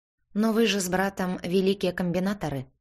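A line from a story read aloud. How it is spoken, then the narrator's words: Plain. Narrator (Russian): ответила я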